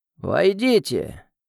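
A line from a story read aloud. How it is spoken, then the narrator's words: Creaky old voice. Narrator (Russian): Проскрипел старик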